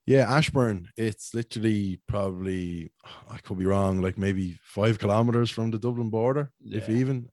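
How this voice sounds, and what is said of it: Dublin Irish accent. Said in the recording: “I know I sound like a dub ... that's why the accent is like this”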